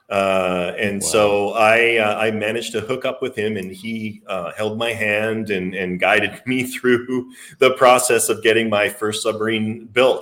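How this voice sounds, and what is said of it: Slight Canadian accent. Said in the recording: “He sounds Canadian. ... I still got a little bit in there. My accent will actually change depending on who I'm talking with.”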